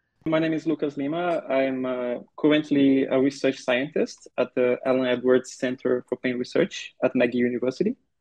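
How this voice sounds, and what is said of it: Brazilian accent in English. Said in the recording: “I have a degree in physical therapy from the Federal University of Sergipe in Brazil. So if you're wondering about the accent, that's where it's from.”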